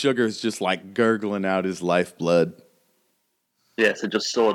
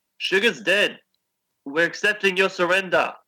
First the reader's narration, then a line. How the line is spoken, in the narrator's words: I shout back down